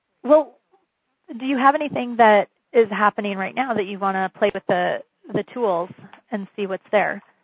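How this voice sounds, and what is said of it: Hoarse, fading voice. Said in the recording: “I'm kind of losing my voice.”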